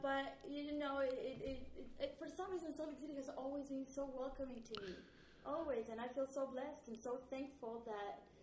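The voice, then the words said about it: Argentine-accented English. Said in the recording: “despite my accent ... where are you from? ... always a connection to Argentina”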